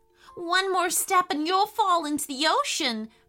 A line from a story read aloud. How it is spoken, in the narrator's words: cried Elliot with fear